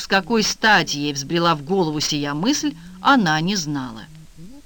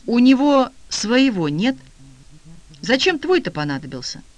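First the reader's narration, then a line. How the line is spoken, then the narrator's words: Sighing. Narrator (Russian): Эдик вздохнул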